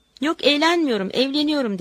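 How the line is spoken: Said laughing. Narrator (Turkish): dedim gülerek

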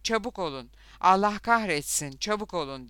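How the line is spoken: Cried out. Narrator (Turkish): diye haykırdı Lothar onlara

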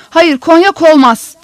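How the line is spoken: Harsh shout. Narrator (Turkish): diye sertçe bağırdı

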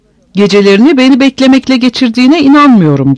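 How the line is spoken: Shouted. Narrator (Turkish): diye bağırdım

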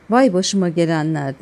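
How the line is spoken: Shouted. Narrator (Turkish): diye bağırdı

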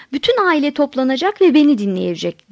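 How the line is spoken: Shouting. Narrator (Turkish): diye bağırdım

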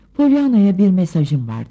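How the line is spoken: Plain. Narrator (Turkish): dedi

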